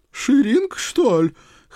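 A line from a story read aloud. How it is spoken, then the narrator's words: Exclamation of realization. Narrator (Russian): Хозяйка, наконец, поняла, воскликнула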